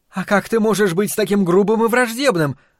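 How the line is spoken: Exclaimed, female. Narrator (Russian): воскликнула она

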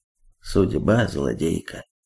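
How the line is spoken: Dull mutter. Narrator (Russian): Мускулюс глухо пробормотал

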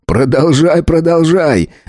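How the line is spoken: Roaring laughter. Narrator (Russian): захохотал пекарь

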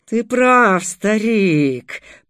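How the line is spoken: Growl mid-fight. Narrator (Russian): прорычал Дугур, нанося бешеные удары

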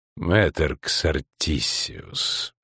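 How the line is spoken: Unexpectedly kind, soft interruption. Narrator (Russian): неожиданно любезно, даже мягко прервал император

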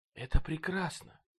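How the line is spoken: Breathless exclamation. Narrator (Russian): выдохнула Баунти

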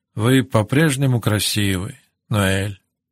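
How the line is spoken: Soft quiet voice. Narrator (Russian): тихо сказал он

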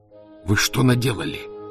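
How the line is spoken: Hoarse rasp. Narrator (Russian): прохрипел Фондорин

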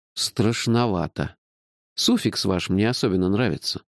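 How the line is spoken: Grumbling. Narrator (Russian): проворчал я

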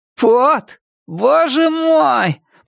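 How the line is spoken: Groaning. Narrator (Russian): простонал другой голос

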